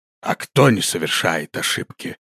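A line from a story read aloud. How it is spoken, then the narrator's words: Old man's calm retort. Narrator (Russian): спокойно парировал старик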